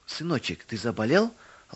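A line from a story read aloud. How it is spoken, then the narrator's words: Mother's tender question. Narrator (Russian): ласково спросила мама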